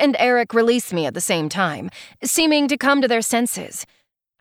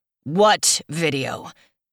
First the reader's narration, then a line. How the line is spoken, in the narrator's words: Dax asks, his voice low and menacing like distant thunder